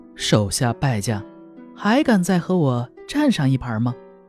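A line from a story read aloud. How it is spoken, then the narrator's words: Woman, laughing. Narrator (Chinese): 一个女子 笑着说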